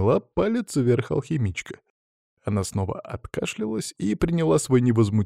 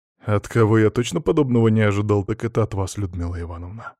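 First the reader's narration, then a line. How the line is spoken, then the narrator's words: Sighing. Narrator (Russian): вздохнул я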